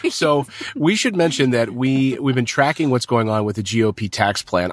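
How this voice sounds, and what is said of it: Hoarse voice. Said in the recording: “is hoarse... I'm sick... He's still got a cold.”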